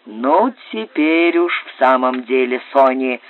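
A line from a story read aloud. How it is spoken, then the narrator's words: Grumbling. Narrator (Russian): проворчал Тернбуль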